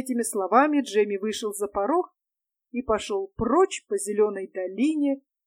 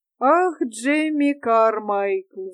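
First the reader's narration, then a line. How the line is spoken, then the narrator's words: Sigh. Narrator (Russian): вздохнул он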